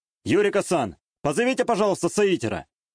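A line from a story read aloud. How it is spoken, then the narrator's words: Shout. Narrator (Russian): выкрикнул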